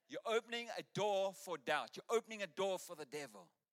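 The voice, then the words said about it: Deliberately bad imitated accent. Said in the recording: “Terrible accent”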